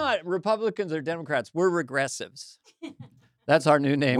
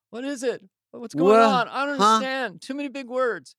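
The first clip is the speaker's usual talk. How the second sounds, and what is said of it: Impression of confused friend reading news. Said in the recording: “This is David reading like Wall Street Journal online ... That's my best impression.”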